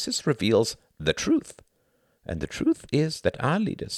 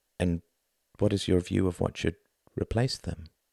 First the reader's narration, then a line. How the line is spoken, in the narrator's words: asked Tom quietly